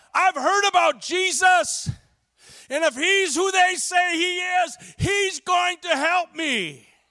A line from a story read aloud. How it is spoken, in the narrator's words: Bartimaeus cried out